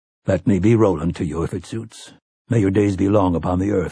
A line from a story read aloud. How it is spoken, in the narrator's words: sighed Jeffords